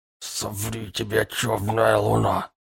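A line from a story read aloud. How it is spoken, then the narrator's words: Hoarse skeleton rasp. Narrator (Russian): просипел полуиссохший скелет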